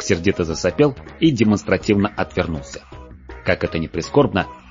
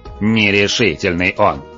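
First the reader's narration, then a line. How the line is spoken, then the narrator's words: Dragon's growl. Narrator (Russian): рыкнул дракон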